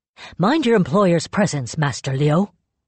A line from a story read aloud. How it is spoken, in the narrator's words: snapped